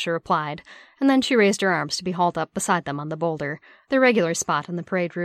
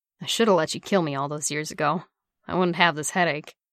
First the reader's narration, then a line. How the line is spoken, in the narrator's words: Bucky growled back